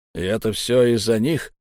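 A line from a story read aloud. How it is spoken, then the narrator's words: Hoarse question. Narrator (Russian): сипло спросил человек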